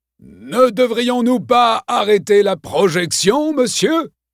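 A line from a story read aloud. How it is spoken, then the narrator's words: Shouted. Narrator (French): cria Tyler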